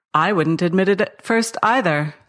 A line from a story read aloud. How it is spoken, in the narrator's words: said Father